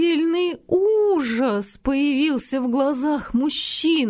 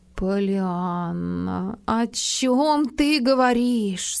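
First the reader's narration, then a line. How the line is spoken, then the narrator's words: Very gentle man. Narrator (Russian): спросил мужчина, на этот раз очень мягко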